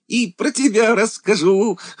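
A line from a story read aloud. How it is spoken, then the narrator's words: Laughing loudly. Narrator (Russian): хохотал Ленька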